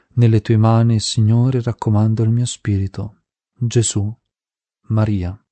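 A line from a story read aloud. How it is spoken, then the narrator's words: Slow dying words. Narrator (Italian): le labbra pronunziavano lentamente le ultime parole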